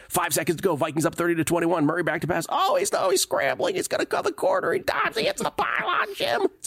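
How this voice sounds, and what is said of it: Impression of excited play-by-play announcer. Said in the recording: “That was a pretty good impression.”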